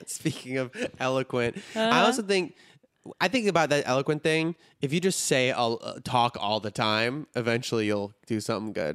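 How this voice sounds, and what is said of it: Chicago accent. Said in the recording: “your Chicago accent”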